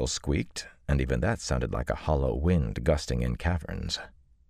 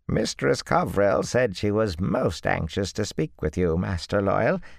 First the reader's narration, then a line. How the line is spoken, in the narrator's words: Ethan said in that creaky voice